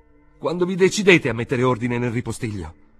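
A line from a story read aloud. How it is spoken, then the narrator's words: Shouting. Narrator (Italian): gridò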